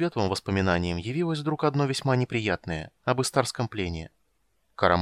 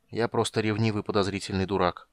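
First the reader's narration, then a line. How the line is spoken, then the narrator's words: Muttered under breath. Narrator (Russian): пробормотал Карамон себе под нос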